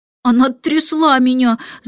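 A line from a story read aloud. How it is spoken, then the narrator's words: Guilty whimper. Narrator (Russian): захныкал Майкл, виновато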